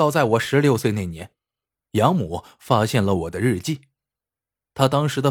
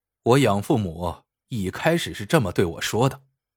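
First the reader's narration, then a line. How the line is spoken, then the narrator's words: Cold. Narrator (Chinese): 陈天红冷冷的说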